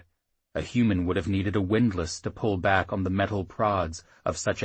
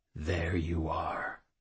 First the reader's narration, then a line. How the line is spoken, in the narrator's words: whispered